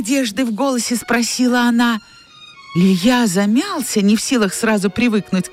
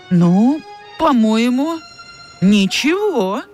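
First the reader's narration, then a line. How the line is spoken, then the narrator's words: Uncertain speech. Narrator (Russian): неуверенно выговорил Илья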